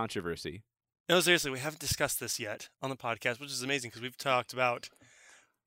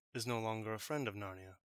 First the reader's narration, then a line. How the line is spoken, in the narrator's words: answered Peter shortly and gravely